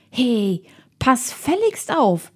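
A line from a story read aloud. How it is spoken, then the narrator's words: Calling out. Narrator (German): rief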